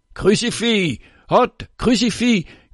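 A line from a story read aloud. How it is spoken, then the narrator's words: Hateful crowd shouting. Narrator (French): crie la foule haineuse et aveugle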